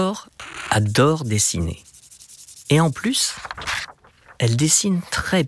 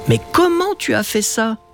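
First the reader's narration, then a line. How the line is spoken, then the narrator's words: Astonished exclamation. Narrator (French): s'exclame Matteo stupéfait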